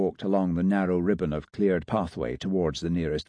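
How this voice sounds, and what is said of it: Usual voice. Nothing is said of it.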